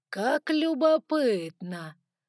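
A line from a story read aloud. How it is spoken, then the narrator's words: Pleased drawl. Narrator (Russian): протянул Саргон, с видимым удовольствием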